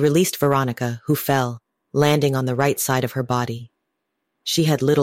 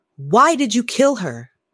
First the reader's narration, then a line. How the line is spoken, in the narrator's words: Brandy shouted at the figure